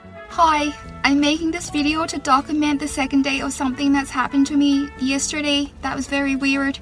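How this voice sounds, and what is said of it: Irish accent. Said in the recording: “her Australian accent had been replaced with an Irish accent ... still talks like an Irish native”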